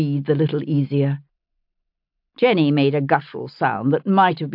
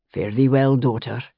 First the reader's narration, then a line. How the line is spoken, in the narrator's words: he said softly